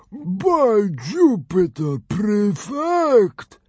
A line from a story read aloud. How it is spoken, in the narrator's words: drawled the fat Roman through a big helping of Nanodragon